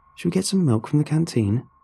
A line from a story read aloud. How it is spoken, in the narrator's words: Yua sighed